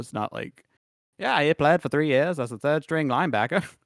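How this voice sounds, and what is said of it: Old-timey 1940s announcer voice. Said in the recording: “I did that in the 1940s announcer voice”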